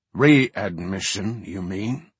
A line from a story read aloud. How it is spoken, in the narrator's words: the king growled with much bitterness